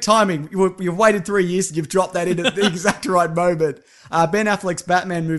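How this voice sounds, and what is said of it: Usual voice. Nothing is said of it.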